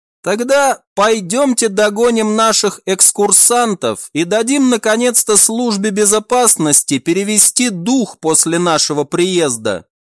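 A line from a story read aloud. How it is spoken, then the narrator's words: Laughing. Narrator (Russian): рассмеялся Альф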